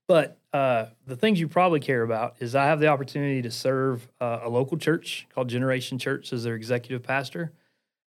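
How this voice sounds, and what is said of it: Appalachian American accent. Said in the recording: “you probably can notice I have an Appalachian accent”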